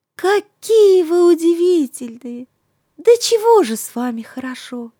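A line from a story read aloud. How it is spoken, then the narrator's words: Joyful laughing girl. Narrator (Russian): Настенька радостно смеется, говорит цветам, как прежде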